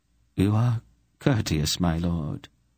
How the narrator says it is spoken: Polgra told him in a weak voice

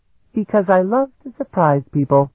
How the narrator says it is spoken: she replied sweetly

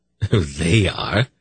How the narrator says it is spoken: Silk laughed gaily

